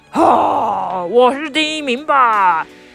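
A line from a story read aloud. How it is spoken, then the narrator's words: Confident roar. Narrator (Chinese): 老虎很有自信的吼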